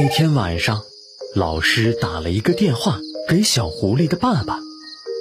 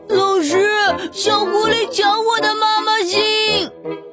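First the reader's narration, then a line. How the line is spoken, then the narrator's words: Crying child. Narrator (Chinese): 小朋友哭着说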